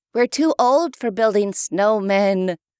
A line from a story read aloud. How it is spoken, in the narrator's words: said with a sigh